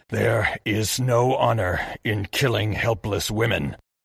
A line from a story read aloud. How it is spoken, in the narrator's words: he snarled at Narihiro